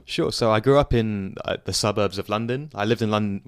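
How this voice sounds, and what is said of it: British English accent. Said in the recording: “I'm guessing the accent might be in the UK or something”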